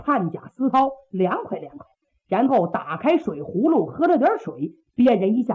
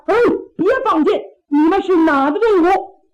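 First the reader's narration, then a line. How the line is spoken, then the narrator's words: Hurried shout. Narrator (Chinese): 乐生赶紧喊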